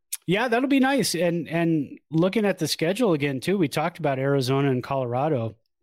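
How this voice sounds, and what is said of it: Strained, fading voice. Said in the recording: “I'm losing my voice ... It's very dry here”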